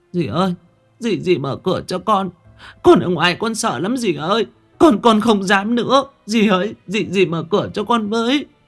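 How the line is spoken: Sobbing child. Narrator (Vietnamese): Con bé Thảo nức nở

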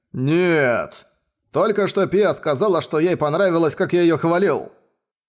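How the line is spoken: Shouting. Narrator (Russian): он закричал

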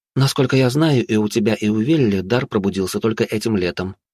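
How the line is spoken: Plain. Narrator (Russian): сказала Валканин

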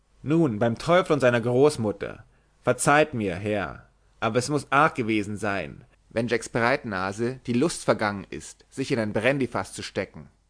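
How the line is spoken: Call. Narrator (German): Die Gliederschlauch dagegen rief

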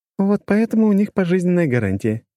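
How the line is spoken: Giggling. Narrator (Russian): хихикнула Лора

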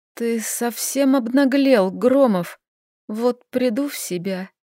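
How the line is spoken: Weak hoarse rasp. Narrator (Russian): Собрав последние силы, я прохрипела

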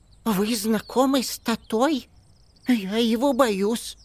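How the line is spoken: Frightened confession. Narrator (Russian): признался испуганно

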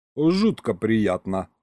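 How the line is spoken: Ironic snort. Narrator (Russian): хмыкнул я

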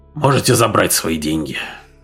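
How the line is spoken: Deep sigh, then speech. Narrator (Russian): глубоко вздохнул и сказал

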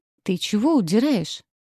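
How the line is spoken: Displeased thundering voice. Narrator (Russian): недовольно прогремела я

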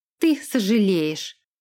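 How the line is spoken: Snorting. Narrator (Russian): она фыркнула

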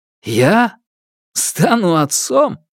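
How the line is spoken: Burst out laughing. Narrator (Russian): И расхохотался

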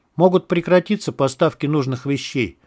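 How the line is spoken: Quiet. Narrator (Russian): тихо произнес Круг

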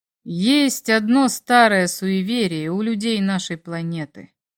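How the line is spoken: Slow. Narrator (Russian): медленно произнес он

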